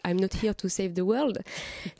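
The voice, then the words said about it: English phrase spoken with an accent. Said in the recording (French): “mon accent est magnifique”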